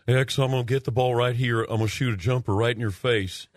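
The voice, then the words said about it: Calm Larry Bird impression. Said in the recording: “I like your accent. I like it. Yeah. That's pretty good. But that was Larry. ... he was saying in such a calm way”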